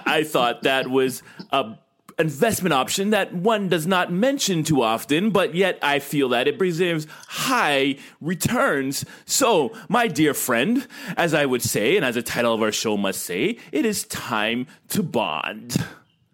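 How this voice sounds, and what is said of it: Put-on British accent. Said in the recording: “why I'm speaking in this British tone today”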